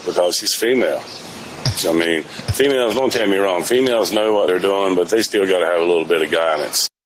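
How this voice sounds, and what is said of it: Southern American accent. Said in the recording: “a guy with a southern accent ... talks like this”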